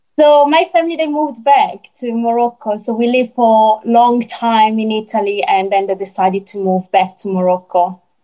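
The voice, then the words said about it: Italian accent. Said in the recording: “I can just hear your Italian accent. It's lovely.”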